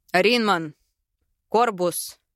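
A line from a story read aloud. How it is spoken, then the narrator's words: Barking shout. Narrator (Russian): гаркнул я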